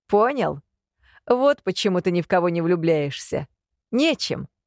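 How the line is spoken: Loud laughter. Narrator (Russian): расхохотался над моим ответом Илья

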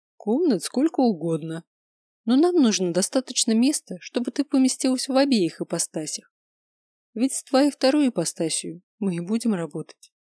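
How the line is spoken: Calm reply. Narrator (Russian): спокойно ответил Габер

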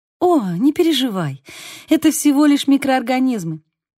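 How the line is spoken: Laughing. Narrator (Russian): Арисса рассмеялась

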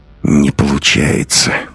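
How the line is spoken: Through gritted teeth. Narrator (Russian): проговорил он сквозь зубы

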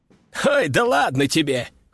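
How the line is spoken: Chuckling. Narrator (Russian): хохотнул матрос

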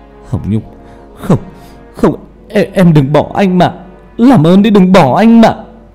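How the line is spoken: Sobbing. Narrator (Vietnamese): Hà khóc lên nức nở

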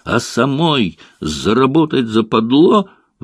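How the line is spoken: Shrieking. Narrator (Russian): взвизгнула она

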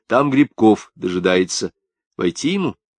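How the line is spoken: Dry report. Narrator (Russian): Павлик сухо доложил

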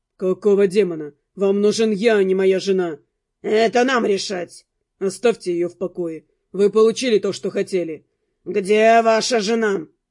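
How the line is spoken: Insistent husky repetition. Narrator (Russian): Настойчиво повторил обладатель голоса с хрипотцой

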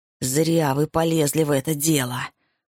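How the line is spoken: Growl. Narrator (Russian): прорычала она

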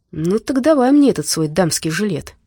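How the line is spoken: Joyful exclamation. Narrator (Russian): радостно воскликнул Дима

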